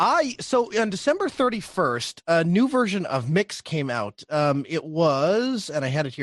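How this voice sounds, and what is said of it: Usual voice. Nothing is said of it.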